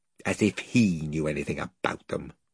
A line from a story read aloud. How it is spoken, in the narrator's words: muttered Edmund